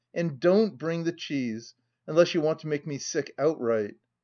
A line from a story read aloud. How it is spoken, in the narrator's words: cried his master